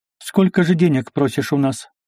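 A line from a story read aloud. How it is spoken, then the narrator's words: Plain. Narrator (Russian): спросила Софья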